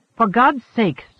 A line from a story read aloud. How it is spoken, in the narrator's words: Svoboda cried